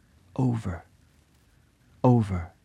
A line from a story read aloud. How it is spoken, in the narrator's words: brokenly murmured